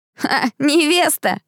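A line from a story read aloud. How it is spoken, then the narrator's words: Laughing boy. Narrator (Russian): рассмеялся второй мальчик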